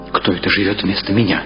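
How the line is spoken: Plain. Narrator (Russian): спросил Митя

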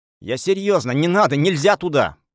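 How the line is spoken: Nearly yelling. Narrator (Russian): почти заорал я

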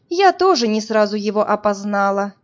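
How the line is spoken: Sigh. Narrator (Russian): вздохнула Марина

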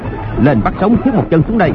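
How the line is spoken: Commanding shout. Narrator (Vietnamese): Hoàng Nhan Hồng Liệt quát

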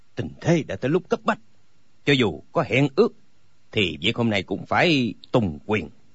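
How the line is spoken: Cold. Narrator (Vietnamese): Âu Dương Phong lạnh lùng nói

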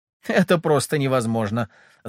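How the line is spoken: Ringing laugh. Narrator (Russian): звонко рассмеялась Ольга

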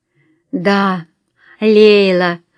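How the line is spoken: Tired, smiling. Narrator (Russian): устало улыбнулась Фарида

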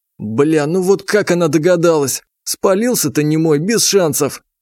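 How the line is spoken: Laughing. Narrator (Russian): все еще смеясь

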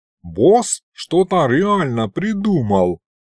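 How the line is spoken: Drawling. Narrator (Russian): Протянул Аристофан, сияя довольной улыбкой

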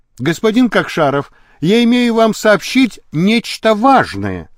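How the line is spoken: Plain. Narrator (Russian): сказал Лабрюйер

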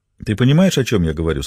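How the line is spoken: Plain. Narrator (Russian): спросил Рэй

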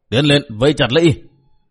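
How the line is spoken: Commander shouting loudly. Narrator (Vietnamese): Tên chánh quản đái thét lớn

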